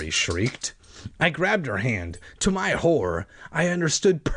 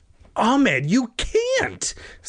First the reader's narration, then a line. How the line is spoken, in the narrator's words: Sari cried